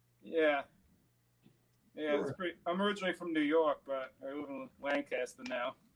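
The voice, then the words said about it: Slight New York accent. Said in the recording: “I kind of picked up a little bit of New York accent there. You haven't lost that.”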